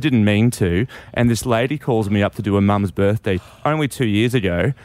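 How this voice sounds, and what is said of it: Nasal Australian accent. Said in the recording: “nasally ... the Aussiness in your voice”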